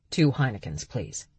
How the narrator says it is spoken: Berg said quickly

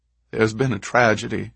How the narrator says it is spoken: she said through the quiet sobbing

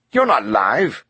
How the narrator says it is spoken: Roche snapped

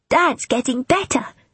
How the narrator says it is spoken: he announced cheerfully

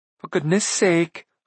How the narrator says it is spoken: Ailanwy cried

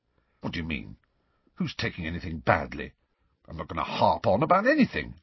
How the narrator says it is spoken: Ron continued to chunter under his breath

